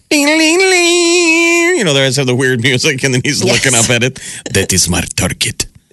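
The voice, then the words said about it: Put-on Canadian accent. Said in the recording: “that's my Canadian accent.”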